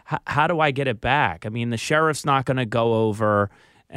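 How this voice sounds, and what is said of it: Philadelphia accent slipping out. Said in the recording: “my Philly accent just came out”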